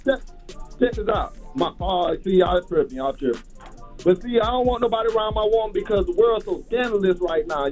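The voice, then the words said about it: South Carolina accent. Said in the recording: “I'm from South Carolina, too. That's their accent breaking through.”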